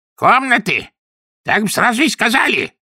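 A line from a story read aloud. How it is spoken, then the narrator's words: Bark. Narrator (Russian): рявкнула она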